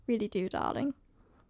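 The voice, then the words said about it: Put-on posh English accent. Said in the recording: “demonstrating her skills ... I love a posh accent”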